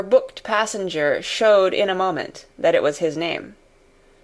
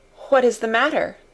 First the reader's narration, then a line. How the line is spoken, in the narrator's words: asked the passenger then, with mildly quavering speech